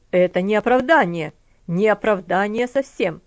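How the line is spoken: Angry. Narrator (Russian): сердито сказал он

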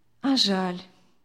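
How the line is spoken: Sad smile. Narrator (Russian): печально улыбнулась Виктория

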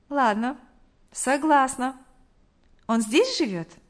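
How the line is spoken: Calm agreement. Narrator (Russian): Спокойно согласилась Мария

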